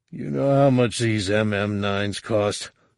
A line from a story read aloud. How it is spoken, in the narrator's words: Fett grumbled